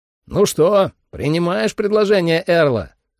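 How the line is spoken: Shouting over music. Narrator (Russian): крикнул я Ли, перекрикивая музыку

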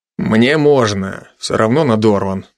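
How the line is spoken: Muttered. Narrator (Russian): буркнул я

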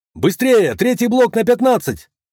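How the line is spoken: Loud man. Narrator (Russian): Громко говорил какой-то мужчина в белом халате

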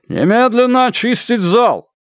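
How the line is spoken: Shouting into a microphone. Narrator (Russian): Комиссар Сун схватил микрофон и закричал

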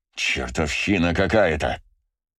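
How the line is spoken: Through clenched teeth. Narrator (Russian): заметил сквозь зубы Браво

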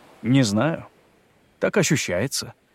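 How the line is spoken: Calm reply. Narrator (Russian): спокойно ответил Клаудио

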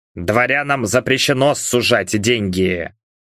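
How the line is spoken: Muttered. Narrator (Russian): пробормотал Левин

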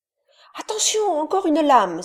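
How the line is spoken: Crying out. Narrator (French): s'écria Moko

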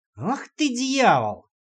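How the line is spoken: Drawn-out exhale. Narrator (Russian): протяжно выдохнул Димка

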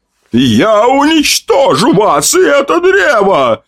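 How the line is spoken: Monstrous roar. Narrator (Russian): Взревела тварь

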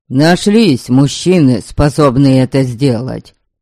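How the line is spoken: Shouting. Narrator (Russian): крикнул Пето

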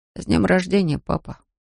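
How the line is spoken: Quiet. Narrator (Russian): тихо произнес он

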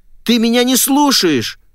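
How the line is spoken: Shouted. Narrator (Russian): выкрикнула я

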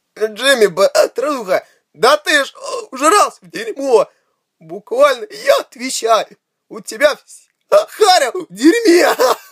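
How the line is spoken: Howling with laughter. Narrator (Russian): Кит взвыл от хохота

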